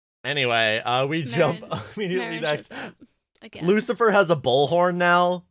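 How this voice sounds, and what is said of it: Usual voice. Nothing is said of it.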